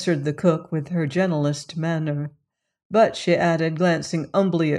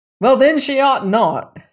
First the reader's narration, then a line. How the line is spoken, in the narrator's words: shouted Reed sternly